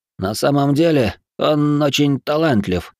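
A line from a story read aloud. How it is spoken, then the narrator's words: Nervous mumble. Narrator (Russian): промямлил отец проигравшего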